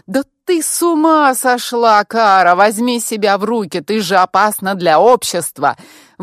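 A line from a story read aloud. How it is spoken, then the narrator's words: Shouting from car window. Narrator (Russian): выкрикнул Эрик из-за окна машины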